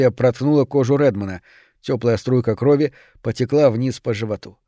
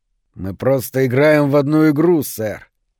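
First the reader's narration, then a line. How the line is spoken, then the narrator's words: Through clenched teeth. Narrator (Russian): процедил тот сквозь стиснутые зубы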